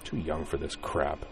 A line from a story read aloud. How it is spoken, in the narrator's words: muttered